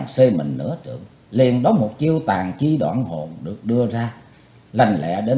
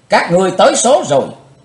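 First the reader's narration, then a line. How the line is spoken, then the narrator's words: Hateful shout. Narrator (Vietnamese): thét hận thù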